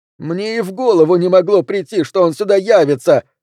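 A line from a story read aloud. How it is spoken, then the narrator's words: Shrieking. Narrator (Russian): завизжал док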